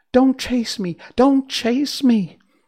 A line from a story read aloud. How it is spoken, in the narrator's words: But the China girl cried out